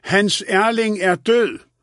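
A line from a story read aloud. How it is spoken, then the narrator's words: Shouting again. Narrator (Danish): råbte hun igen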